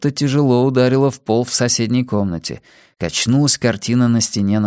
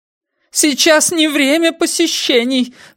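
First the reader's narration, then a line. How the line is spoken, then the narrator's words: Cracking shout, behind wall. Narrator (Russian): ломким голосом закричала женщина за стеной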